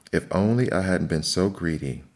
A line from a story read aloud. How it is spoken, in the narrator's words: he sighed